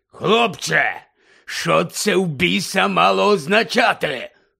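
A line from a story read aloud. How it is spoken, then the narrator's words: Hoarse voice trembling with rage. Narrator (Ukrainian): прохрипів дядько Вернон тремтячим від люті голосом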